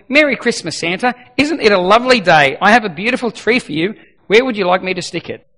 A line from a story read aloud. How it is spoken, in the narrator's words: The angel said very cheerfully